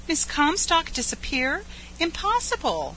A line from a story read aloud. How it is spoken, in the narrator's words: cried Edith Carr